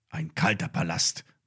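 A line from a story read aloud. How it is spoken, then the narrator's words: Murmured. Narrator (German): murmelte Max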